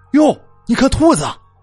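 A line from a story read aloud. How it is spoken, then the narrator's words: Sudden startled cry. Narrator (Chinese): 阿全 突然就惊声叫了一句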